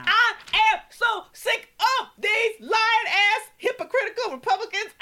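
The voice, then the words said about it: Screaming angrily. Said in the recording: “sorry for screaming”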